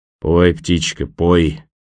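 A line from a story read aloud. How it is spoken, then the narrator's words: Gloomy mutter. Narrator (Russian): мрачно пробормотал партизан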